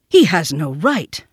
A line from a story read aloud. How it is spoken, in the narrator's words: Father Wolf began angrily